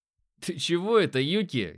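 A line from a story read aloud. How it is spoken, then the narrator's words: Short laugh. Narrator (Russian): я хохотнул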